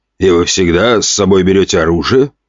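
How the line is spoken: Skeptical snort. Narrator (Russian): хмыкнул тот

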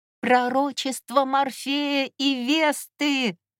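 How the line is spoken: Shouting. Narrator (Russian): закричала я

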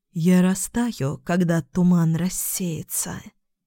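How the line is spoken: Sighing. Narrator (Russian): вздохнула Гало

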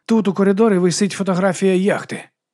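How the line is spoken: Sighed. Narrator (Ukrainian): зітхнув

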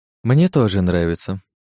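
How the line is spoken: Calm. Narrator (Russian): спокойно произнесла вампирша

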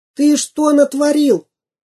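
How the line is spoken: Shouting. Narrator (Russian): закричал самоделкин

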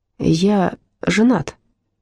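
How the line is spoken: Muttering. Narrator (Russian): пробормотал он

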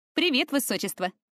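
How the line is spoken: Snorting. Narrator (Russian): хмыкнула она

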